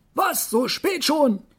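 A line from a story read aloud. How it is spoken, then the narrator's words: Calling out. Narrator (German): rief er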